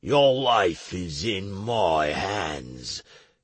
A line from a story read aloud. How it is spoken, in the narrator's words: Plinto growled bloodthirstily, the way only he could